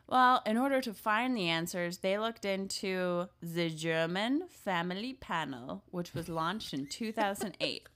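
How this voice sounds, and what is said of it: Half-hearted German accent. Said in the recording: “half committed to the German accent? That was really cute.”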